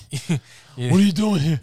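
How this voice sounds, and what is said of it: High-pitched New York accent. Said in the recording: “with like a stupid New York accent ... really annoying with his high pitched voice.”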